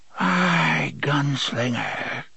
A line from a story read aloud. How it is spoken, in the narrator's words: she breathed